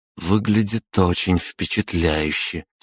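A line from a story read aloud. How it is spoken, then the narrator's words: Quiet. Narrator (Russian): тихо проговорила Лиза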